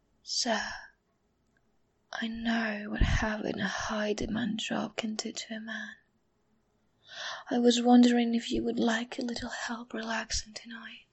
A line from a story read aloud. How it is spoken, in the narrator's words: I whispered in his ear